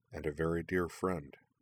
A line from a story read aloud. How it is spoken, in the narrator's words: adding in a gentle voice